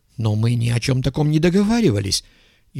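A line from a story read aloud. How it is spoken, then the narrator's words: Frightened stammering scientist. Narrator (Russian): испуганно пролепетал ученый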